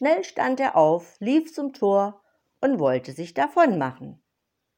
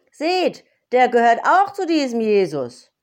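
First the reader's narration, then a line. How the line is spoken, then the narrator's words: Calling out. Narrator (German): rief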